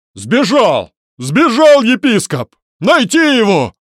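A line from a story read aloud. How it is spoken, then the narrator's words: Crowd of men shouting. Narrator (Russian): кричали со всех сторон мужики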